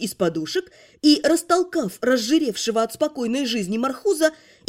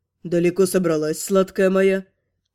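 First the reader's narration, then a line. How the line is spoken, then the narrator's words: Husky voice. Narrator (Russian): От этого хрипловатого голоса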